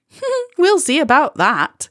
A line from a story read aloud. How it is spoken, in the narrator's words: Molly said cheerfully